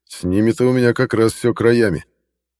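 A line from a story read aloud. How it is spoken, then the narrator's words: Wry chuckle. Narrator (Russian): хмыкнул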